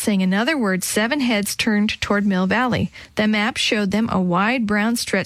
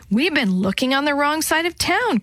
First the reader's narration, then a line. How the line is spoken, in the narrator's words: Chris said excitedly